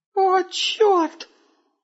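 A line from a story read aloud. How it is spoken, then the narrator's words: Thin squeaky voice. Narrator (Russian): произнес Густав тоненьким голоском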